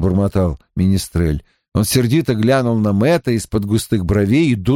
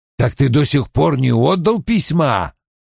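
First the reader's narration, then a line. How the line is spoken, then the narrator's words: Barking. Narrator (Russian): рявкнул Том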